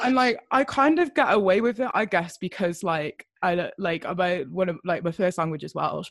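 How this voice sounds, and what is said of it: Posh southern English accent. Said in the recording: “I have a very like English southern accent... sounding like I'm like a London posh girl”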